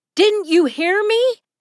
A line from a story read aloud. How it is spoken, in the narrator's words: He shouted